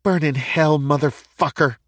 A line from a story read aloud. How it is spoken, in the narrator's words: The Angel of Death snarled at him